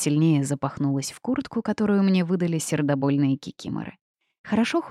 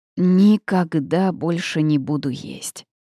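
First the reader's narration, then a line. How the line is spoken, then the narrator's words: Groaning. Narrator (Russian): простонал Лиха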